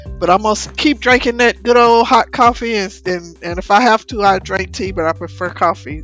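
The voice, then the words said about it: Hoarse voice. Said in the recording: “excuse my voice, I woke up this morning, I was hoarse... made me a little hoarse, and my throat is a little sore”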